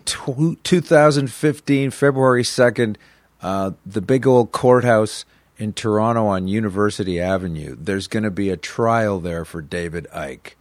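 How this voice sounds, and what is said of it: Slow deliberate delivery. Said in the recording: “I said it like that, and I said it slowly”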